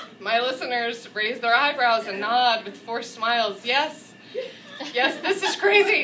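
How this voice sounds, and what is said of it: Usual voice. Nothing is said of it.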